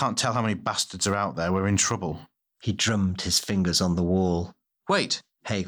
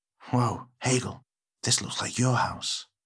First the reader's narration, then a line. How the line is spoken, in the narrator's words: Tay whispered